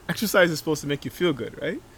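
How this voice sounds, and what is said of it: Put-on Nigerian accent. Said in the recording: “in his Nigerian accent”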